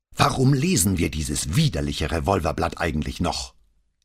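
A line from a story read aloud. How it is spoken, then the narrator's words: Explosive outburst. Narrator (German): explodierte Paola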